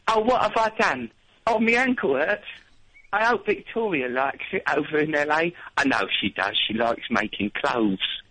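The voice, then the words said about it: Imitates another person's voice. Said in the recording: “Can you say that in your David Beckham voice?”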